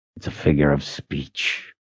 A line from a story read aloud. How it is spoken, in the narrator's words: he growled